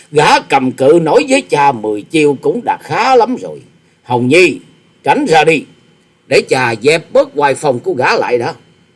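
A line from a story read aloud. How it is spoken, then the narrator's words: Loud laughing speech. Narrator (Vietnamese): Tư Đồ Hạnh cười to tiếng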